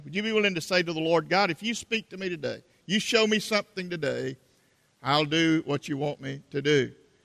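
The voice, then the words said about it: South Carolina Southern accent. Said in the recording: “my South Carolina accent”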